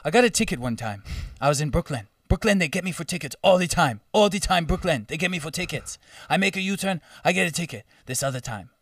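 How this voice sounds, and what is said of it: Put-on African accent. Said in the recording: “he was African. I'm going to do the accent.”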